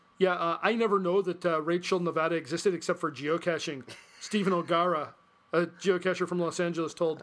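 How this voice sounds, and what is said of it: Put-on Canadian accent. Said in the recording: “You give Los Angeles a Canadian accent?”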